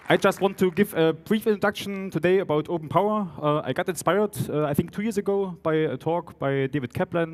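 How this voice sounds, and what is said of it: Strong German Saxon accent. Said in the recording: “my strong German-Saxon mixture of German and English ... the accent is still a mixture of Saxon and German”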